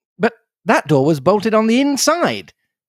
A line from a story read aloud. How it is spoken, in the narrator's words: I cried